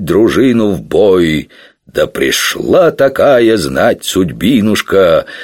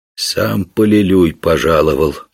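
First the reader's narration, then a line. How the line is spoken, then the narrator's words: Quiet. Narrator (Russian): тихо сказал Мутило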